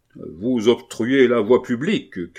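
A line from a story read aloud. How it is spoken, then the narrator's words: Deep bass shout. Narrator (French): cria Gibassier d'une voix de basse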